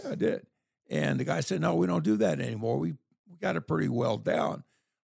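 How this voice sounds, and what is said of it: Hoarse, weakened voice. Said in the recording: “can tell by my voice, but I think I've lost my voice”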